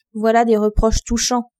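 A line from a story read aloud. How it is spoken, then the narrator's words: Mocking. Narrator (French): dit le roi, d'un ton railleur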